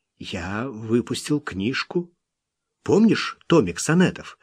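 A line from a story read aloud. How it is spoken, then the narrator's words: Timid objection. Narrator (Russian): робко возразил Кит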